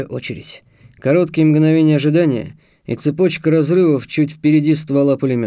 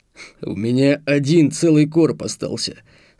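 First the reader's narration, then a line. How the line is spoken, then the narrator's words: Plain. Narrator (Russian): сказал Марк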